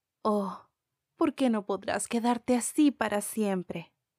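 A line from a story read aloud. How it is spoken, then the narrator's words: Exclaimed. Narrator (Spanish): la señora Darling exclamó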